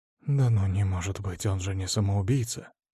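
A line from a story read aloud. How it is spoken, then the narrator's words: Whispering between two men. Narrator (Russian): Перешептывались два медбрата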